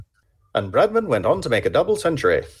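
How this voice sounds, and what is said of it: 1950s radio announcer voice. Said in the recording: “I was trying to do a 1950s radio voice. ... That's better.”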